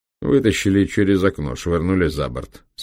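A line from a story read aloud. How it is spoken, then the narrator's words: Calm explanation. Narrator (Russian): спокойно объяснил Айзенкопф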